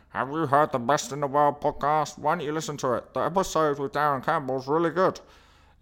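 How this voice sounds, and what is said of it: Funny muffled plastic-cup voice. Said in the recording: “put on that funny voice. ... the noise it makes when you talk in a plastic cup”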